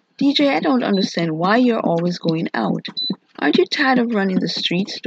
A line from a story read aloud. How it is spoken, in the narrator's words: Dwight asked him